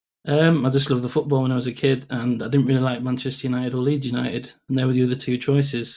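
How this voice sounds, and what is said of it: Northern English Yorkshire accent. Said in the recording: “I detect something northern in that accent of yours ... Yorkshire born and bred”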